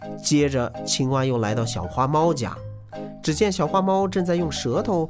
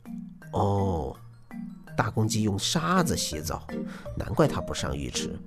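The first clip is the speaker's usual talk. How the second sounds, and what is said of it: Soft muttering voice. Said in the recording (Chinese): “青蛙小声嘀咕着”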